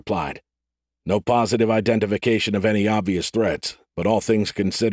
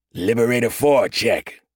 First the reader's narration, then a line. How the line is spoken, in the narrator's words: Corporal Dane said, his voice like gravel